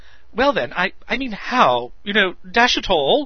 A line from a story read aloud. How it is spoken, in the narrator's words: added urgently as if he must